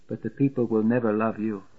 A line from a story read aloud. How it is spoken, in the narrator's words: she whispers